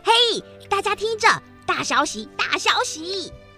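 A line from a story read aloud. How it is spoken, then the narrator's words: Girl shouting loudly. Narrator (Chinese): 有个女孩大声嚷嚷着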